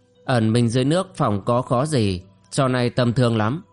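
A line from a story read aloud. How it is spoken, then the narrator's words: Cold. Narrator (Vietnamese): Chàng lạnh lùng nói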